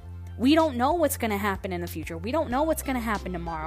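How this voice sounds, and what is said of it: Unusual-sounding accent. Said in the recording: “My accent is like really weird right now... I love my weird accent”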